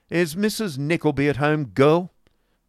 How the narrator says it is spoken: demanded Ralph sharply

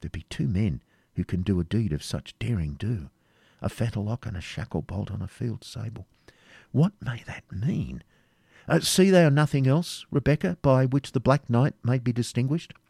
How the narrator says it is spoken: he again muttered to himself

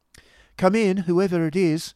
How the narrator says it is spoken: cried Miss La Creevy

